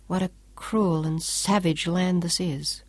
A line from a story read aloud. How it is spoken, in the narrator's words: Claudia said quietly